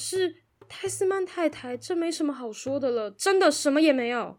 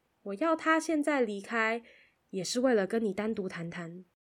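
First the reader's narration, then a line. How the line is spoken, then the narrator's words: Soft. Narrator (Chinese): 海达轻声地说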